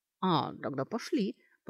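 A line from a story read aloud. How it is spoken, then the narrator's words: Relieved grumble. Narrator (Russian): пробурчала Сашка, с плеч которой словно и впрямь давящий груз свалился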